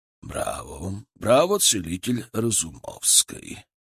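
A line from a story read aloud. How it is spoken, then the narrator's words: Strong clear voice. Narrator (Russian): Его голос был совершенно другим, сильным, чистым, без малейшего намека на хрипоту или слабость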